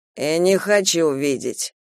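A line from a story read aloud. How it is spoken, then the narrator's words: Sighed. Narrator (Russian): вздохнул Нейл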